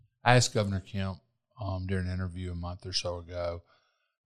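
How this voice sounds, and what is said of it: Usual voice. Nothing is said of it.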